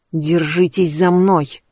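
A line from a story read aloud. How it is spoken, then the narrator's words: Hissed. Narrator (Russian): прошипела Кэндис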